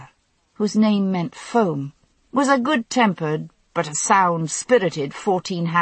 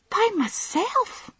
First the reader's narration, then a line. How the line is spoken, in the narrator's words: Hamish asked eagerly